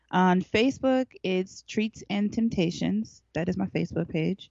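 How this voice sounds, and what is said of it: Speaking slowly and deliberately. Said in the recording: “I'm just going to say it slowly.”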